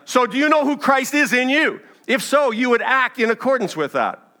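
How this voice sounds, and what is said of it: Raised, loud voice. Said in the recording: “I'm raising my voice.”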